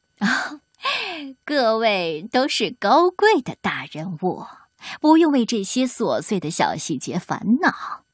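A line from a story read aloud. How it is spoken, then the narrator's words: Fawning flattery. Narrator (Chinese): 老伦佐 谄媚的笑容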